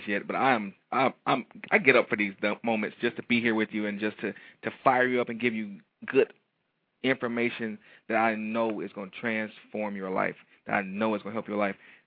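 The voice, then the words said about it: Excited, energetic delivery. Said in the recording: “I'm thoroughly excited to be here with you today ... can hear it in my voice”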